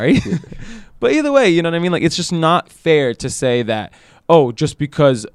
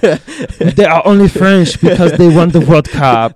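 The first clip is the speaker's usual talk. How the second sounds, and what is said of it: Attempted French accent sounding Austrian. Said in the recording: “That was a good attempt at a French accent. ... That's Austrian, dude. ... that's Arnold Schwarzenegger.”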